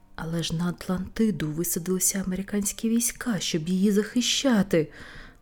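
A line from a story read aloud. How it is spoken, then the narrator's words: Groaned. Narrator (Ukrainian): простогнав Ньютон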